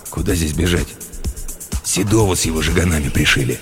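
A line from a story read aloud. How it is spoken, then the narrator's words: Wary mutter. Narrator (Russian): Тот, опасливо глянув по сторонам, буркнул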